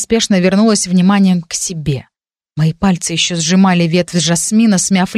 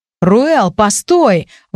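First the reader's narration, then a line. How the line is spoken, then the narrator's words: Exclamation. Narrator (Russian): воскликнул принц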